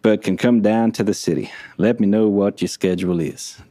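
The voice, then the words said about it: Put-on Southern American accent. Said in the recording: “I'm going Southern now. ... For that's like a Southern accent, right? That was all right. That's the best I've ever done it.”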